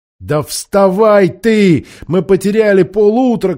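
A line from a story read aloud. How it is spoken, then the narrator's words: Shouting. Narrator (Russian): кричала Аравита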